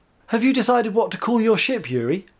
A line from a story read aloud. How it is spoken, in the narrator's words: Naya asked cheerfully